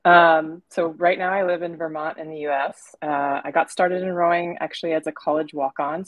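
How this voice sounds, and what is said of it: North American accent. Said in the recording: “from your accent, we know that you're from North America.”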